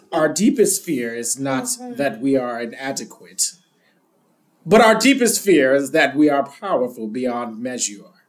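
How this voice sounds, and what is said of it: Imitates another person's voice. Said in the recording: “I'm going to do it in my Maya Angelou voice.”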